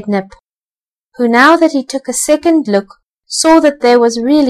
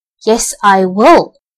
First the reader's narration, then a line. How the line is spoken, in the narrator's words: growled Nip, who was a little angry and not as kind as he might have been